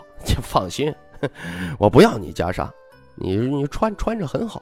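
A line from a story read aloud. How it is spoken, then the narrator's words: Laughing. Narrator (Chinese): 徐凤年笑道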